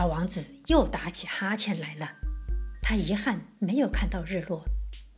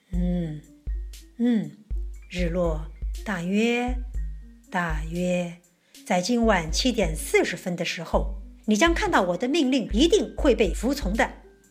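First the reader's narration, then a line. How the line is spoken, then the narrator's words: King speaking slowly. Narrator (Chinese): 国王 嘴里慢慢的说道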